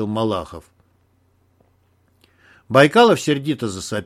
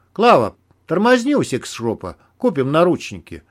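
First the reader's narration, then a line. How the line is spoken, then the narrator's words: Calm. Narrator (Russian): спокойно сказал Герман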